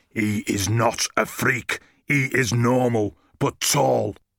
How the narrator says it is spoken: He growled

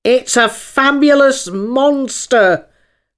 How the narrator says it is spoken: the unicorn cried out

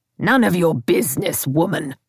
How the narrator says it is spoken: spat out the words

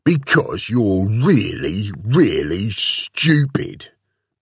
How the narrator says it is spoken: bellowed the big, bad bully bunny

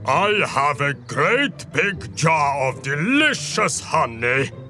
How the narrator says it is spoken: Bear bellowed

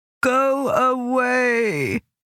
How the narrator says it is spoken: she moaned

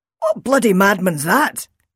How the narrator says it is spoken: Roy shouted angrily

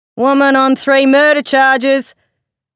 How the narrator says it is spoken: the paperboy shouted

